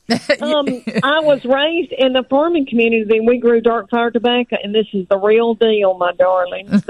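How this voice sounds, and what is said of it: Thick rural Tennessee Southern accent. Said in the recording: “Is that accent as thick as you portray it on stage? ... Yes. My darling, it is ... I am a farming girl from rural Tennessee ... This is how my people talk.”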